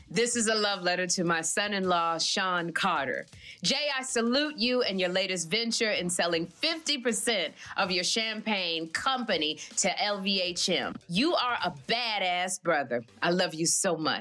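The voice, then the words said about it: Impression of Tina Lawson. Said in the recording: “do it in your best Tina Lawson voice”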